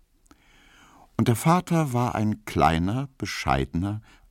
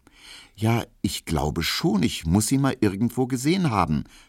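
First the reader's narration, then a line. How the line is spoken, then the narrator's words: Stuttering. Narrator (German): stotterte Emil Kubinke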